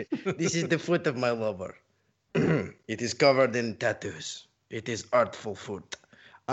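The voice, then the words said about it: Put-on accent. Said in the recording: “I don't know why I just switched to this accent.”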